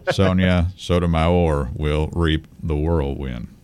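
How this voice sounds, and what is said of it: Imitates another person's voice, slow. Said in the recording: “You had way too much inflection in your voice for Mitch McConnell. ... Even that was probably too fast. ... pretty good McConnell impression.”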